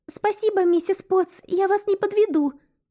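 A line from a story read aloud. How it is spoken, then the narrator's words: Squeaking. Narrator (Russian): пискнула я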